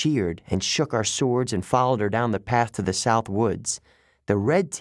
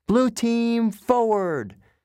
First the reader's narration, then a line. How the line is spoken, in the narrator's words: Annabeth yelled